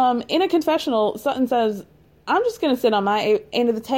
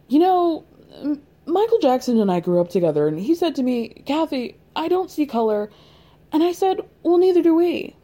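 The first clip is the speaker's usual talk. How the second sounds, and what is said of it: Imitates another person's voice. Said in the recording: “that was my Kathy impression. It wasn't good. It wasn't good.”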